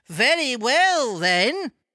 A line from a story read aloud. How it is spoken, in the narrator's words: cried the woman